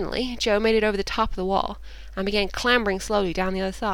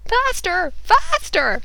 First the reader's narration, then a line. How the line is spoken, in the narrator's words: Chuck was yelling